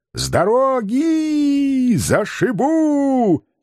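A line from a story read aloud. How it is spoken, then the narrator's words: Happy yelling. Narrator (Russian): Счастливо вопил я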